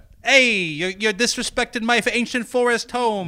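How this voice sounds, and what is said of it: Staten Island accent elf voice. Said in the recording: “it's not like a Brooklyn guy ... maybe it's closer to like a mid-Atlantic thing ... Like a Staten Island elf.”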